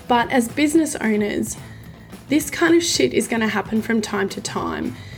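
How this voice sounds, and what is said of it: Voice sounds sick, not fully recovered. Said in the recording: “as you can probably hear from my voice, I'm still not 100%... we have both been quite sick”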